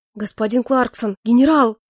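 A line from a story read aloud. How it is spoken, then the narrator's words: Very agitated interruption. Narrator (Russian): перебил кто-то очень взволнованным голосом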